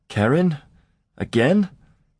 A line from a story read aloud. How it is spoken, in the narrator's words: Clisson protested feebly